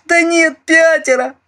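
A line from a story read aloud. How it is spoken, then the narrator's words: Terrified whimper. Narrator (Russian): прохныкал он и в ужасе замолчал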